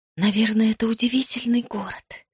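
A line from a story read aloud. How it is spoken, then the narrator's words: Involuntary whisper. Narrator (Russian): против воли шепнула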